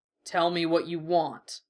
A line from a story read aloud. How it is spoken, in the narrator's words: the bull rumbled